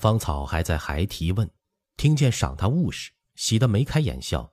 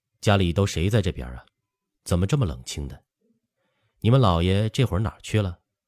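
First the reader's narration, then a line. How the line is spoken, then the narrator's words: Laughing. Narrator (Chinese): 芳草笑道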